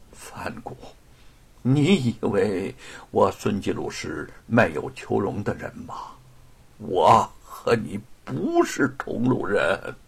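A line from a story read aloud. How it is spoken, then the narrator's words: Halting, strained speech. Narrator (Chinese): 孙继鲁艰难一笑，断断续续的说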